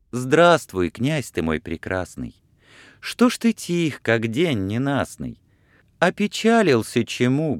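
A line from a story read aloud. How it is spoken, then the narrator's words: Plain. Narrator (Russian): говорит она ему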